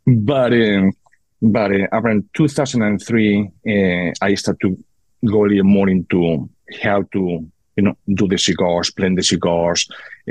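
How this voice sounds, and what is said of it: Heavy foreign accent. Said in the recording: “I still had that heavy accent. Sorry, guys, it's just what I have.”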